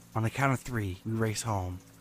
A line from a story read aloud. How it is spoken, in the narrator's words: told me in a very serious tone of voice